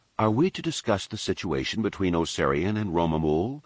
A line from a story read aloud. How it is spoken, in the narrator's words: Leia asked, her tone diplomatic and soothing